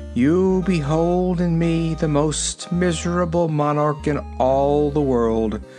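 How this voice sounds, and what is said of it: Sad, mournful voice. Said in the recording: “in a sad voice”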